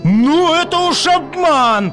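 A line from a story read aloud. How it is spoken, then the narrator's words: Shout. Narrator (Russian): закричало солнце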